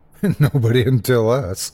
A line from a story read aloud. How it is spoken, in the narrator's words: Shane laughed